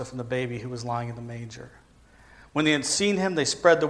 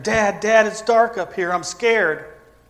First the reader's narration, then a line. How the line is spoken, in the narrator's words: He shouted down from his bedroom